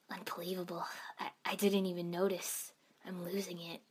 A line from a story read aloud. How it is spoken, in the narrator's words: muttered